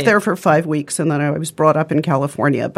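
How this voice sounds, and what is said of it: English accent. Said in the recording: “sounded like, to me, like a voiceover from, like, you know, some kind of, from Masterpiece Theater ... English accent”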